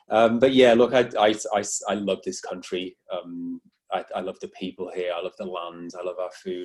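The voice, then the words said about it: British accent. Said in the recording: “haven't lost my British accent, as you can probably tell. I don't think I'll ever get the Aussie one now”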